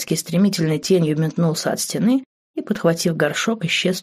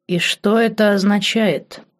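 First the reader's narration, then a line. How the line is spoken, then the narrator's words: Stern, menacing. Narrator (Russian): грозно нахмурил брови Марк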